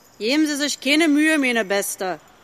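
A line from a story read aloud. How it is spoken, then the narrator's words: Crow calling down from above. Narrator (German): rief eine Krähe, die über ihr in der gleichen Richtung hinzog, zu ihr herab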